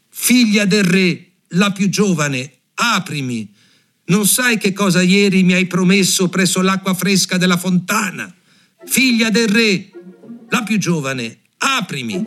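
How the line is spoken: Frog shouting. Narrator (Italian): il ranocchio bussò per la seconda volta e gridò

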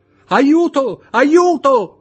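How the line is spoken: Shouted. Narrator (Italian): gridò Louise d'Armilly

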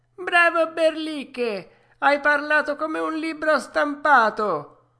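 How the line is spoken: Rascals yelling, laughing wildly. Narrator (Italian): urlarono quei monelli, buttandosi via dalle matte risate

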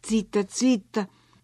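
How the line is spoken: Whispered. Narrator (Italian): sussurrai

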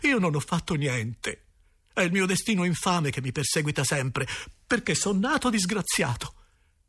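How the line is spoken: Sobbing. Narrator (Italian): risposi singhiozzando

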